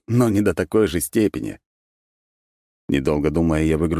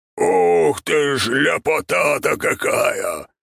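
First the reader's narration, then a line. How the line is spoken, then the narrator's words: Loud booming bass. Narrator (Russian): пробасил Ярозавр на всю округу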